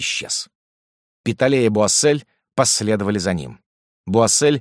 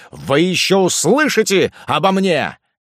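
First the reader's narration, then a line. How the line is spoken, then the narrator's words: Shouted. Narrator (Russian): крикнул в сторону своих двух противников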